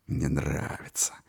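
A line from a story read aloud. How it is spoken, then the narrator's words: Mocking, sad, through teeth. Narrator (Russian): сквозь зубы процедил один из пассажиров, насмешливо и печально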